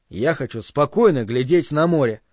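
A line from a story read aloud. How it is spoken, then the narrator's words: Plain. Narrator (Russian): сказал он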